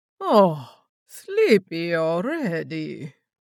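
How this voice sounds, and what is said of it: Cooing heavy Russian accent. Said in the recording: “the Hunter cooed in a heavy Russian accent.”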